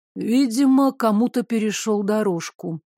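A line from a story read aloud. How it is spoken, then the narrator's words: Sighed. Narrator (Russian): вздохнул Девислав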